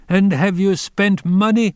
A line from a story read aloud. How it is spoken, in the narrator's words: cried again